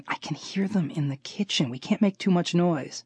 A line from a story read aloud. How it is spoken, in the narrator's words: I'd be whispering